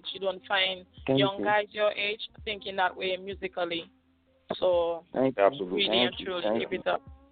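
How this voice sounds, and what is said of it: Caribbean accent. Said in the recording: “I love her accent. I love it, the Caribbean accent.”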